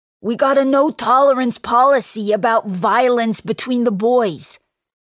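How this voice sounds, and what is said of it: Thick Long Island accent. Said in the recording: “in his thick Long Island accent”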